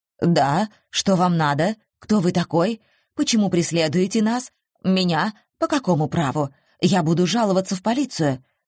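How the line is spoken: Hurried muttering. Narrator (Russian): торопливо бормотал он

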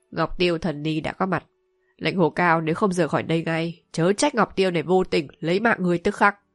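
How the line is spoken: Cold old nun. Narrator (Vietnamese): Lão ni ... lạnh lùng nói

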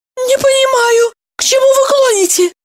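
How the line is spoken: Squeaky voice. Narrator (Russian): пискнула Евдокия

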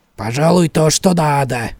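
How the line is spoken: Old man snorting. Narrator (Russian): фыркнул старик

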